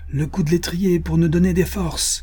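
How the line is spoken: Hearty exclamation. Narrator (French): s'écria Bill Cody

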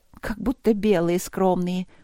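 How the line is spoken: Grumbled. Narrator (Russian): проворчала я

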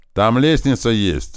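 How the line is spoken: Loud yell nearby. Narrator (Russian): заорал рядом Корж

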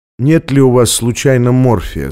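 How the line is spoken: Calm question. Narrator (Russian): спросил спокойным голосом

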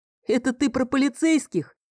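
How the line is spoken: Chuckling. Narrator (Russian): хохотнул Фил

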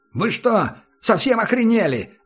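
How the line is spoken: Mosquito yelling. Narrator (Russian): заорал комар

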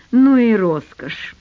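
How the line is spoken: Through gritted teeth. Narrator (Russian): процедил Дима

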